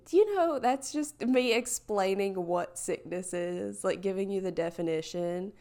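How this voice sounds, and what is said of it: Husky voice with vocal fry. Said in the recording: “my voice is a little bit really sultry and awesome. In addition to my awesome vocal fry”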